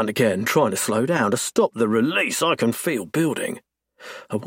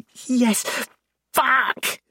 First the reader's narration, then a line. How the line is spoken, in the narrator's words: She groans